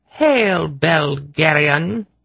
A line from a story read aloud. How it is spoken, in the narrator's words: she taunted him